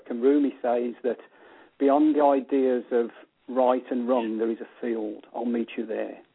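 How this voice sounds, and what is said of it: Speaker with a noticeable accent. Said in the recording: “hopefully he understands this with my accent”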